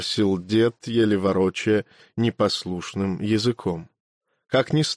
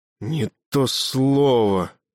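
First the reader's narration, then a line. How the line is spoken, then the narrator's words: Hissed, sleep-hoarse voice. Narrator (Russian): прошипел ты, севшим с просонья голосом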